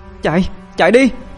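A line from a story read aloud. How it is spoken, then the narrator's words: Shout. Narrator (Vietnamese): A Nhĩ hét lên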